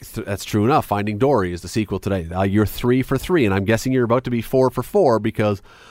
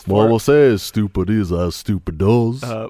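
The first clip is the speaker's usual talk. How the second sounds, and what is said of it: Deliberately bad movie-character impression. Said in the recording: “bad impression ... there were going to be some truly bad impressions”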